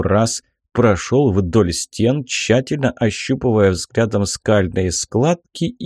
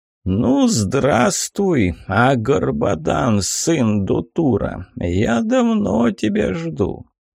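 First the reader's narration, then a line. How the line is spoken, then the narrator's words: Hoarse but clear dead man. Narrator (Russian): хрипло, но четко и внятно проговорил мертвец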